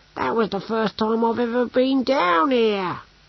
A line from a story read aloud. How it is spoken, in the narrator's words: wailed Brocando